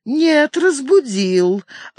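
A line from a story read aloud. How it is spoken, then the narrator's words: Laughing. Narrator (Russian): она засмеялась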